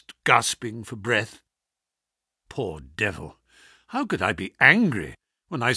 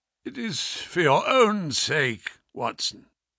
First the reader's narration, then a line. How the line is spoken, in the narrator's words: he croaked